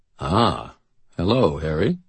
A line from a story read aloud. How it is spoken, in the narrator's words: Forthill considered me gravely and said